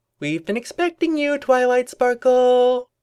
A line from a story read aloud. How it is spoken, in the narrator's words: it called out in a sing-song tone